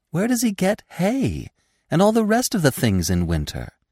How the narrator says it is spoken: asked Feline eagerly

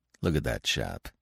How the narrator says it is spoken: said Rosser in a low voice

